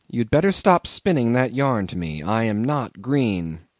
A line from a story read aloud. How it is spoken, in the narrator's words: said quite calmly